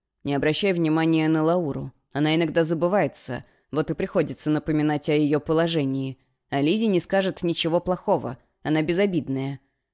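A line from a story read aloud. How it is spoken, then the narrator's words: Calmer. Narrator (Russian): уже более спокойно сказал он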